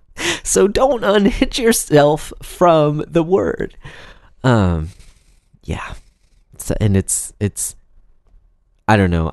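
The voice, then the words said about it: Strained voice, laughing while speaking. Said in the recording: “my voice sounds very strange right now because I'm laughing”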